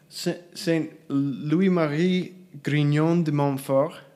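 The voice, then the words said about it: Bad American-style French accent. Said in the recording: “Nice accent... a Toulousian accent? Like Southern French?... That's a bad American French accent.”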